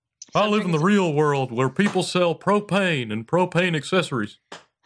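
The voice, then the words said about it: Close Hank Hill impression. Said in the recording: “Was that Hank Hill? ... doing his voice? ... that was an impression. ... it sounded 90% like him. That's really good.”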